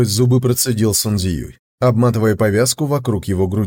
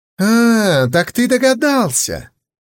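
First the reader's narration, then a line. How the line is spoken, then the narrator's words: Laugh turning to pained hiss. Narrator (Russian): Хуманзы засмеялся было, но тут же зашипел от боли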